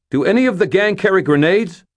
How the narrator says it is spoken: shouted

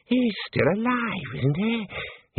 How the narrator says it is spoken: He wheezed

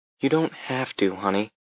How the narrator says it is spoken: I said gently

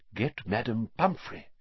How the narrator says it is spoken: whispered Dumbledore

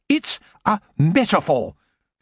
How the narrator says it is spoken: she said sharply

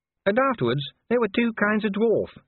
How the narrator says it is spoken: said Cheery sadly

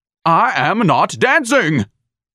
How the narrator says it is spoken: Ignatius barked

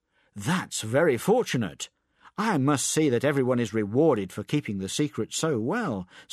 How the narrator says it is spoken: said Alim

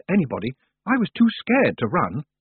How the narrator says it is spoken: Roland muttered

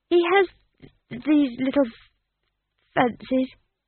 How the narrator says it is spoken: he muttered

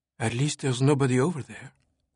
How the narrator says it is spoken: Sophie whispered

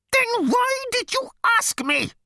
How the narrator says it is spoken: it screamed

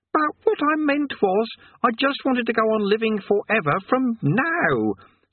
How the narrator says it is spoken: said Eric frantically

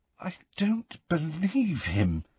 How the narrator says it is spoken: said Hermione in a very unsteady voice

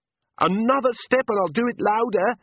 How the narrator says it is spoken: she shouted

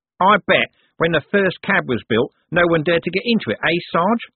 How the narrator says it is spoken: said Nobby happily

